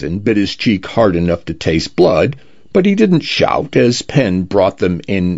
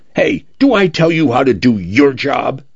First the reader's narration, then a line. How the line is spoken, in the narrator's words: Penn snapped